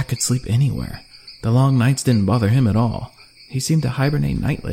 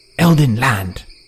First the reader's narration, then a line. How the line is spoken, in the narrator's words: Trendon said fiercely